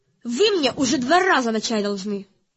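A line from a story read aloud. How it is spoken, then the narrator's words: Snapping. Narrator (Russian): огрызнулась Кармелита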